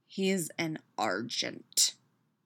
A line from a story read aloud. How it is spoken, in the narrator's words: Peter growls